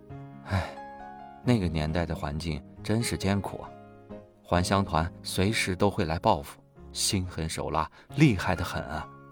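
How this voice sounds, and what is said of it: Quiet sighing voice. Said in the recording (Chinese): “小声叹息道”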